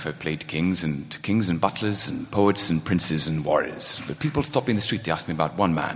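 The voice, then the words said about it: Anthony Hopkins impression. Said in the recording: “his Anthony Hopkins impression... Yours is way better.”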